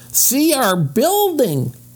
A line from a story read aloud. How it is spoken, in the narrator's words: shouted Benny